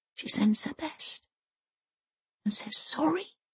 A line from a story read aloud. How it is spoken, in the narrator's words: she whispers into the darkness